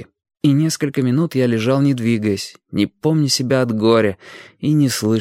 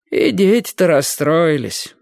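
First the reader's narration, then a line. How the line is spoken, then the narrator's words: Sighing. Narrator (Russian): вздохнув, сказала тетя Даша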